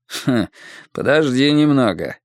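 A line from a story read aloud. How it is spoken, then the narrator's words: Hmph. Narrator (Russian): хмыкнул Макинтайр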